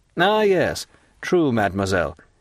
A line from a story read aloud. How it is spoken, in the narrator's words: exclaimed Monte Cristo, as if this simple indication was sufficient to determine his recollections